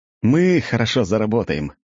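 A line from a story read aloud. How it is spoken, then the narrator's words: Laughing. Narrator (Russian): рассмеялся я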